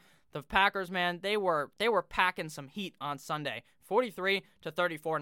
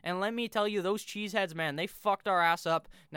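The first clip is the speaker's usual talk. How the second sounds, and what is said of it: Weak put-on Minnesota accent. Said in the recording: “I don't think that was a good Minnesota accent”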